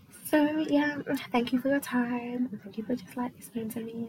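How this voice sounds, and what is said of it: Put-on American accent. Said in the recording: “Have my American accent. It's okay. I've been like, you know, I've been fine tuning it”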